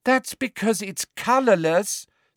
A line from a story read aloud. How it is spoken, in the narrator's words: said Ginny in a convincingly exasperated voice